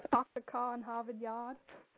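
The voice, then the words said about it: Unconvincing put-on Boston accent. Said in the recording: “Boston, Bostonian accent. I love her Mass accent. ... Didn't sound convincing.”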